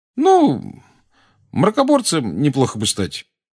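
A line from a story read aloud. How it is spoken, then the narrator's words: Deliberately casual. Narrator (Russian): сказал Рон нарочито небрежным тоном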